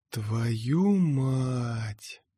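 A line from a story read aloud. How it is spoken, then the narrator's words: Whispered in ear. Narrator (Russian): прошептал мне на ухо Мираж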